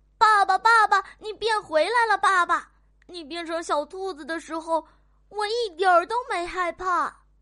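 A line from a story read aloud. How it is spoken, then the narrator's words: Loud shouting. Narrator (Chinese): 卡卡大声的叫着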